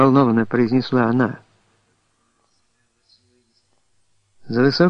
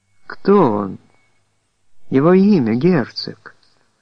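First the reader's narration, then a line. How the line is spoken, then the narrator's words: Trembling voice. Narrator (Russian): еще раз повторила она дрогнувшим голосом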